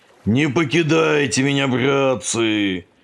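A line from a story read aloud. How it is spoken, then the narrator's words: Yelling into emptiness. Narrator (Russian): орал в пространство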